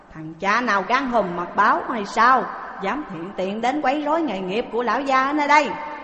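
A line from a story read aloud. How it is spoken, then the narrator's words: Angry shout. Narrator (Vietnamese): Người kia quát lên rằng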